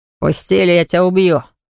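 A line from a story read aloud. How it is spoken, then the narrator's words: Growled. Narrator (Russian): Прорычал он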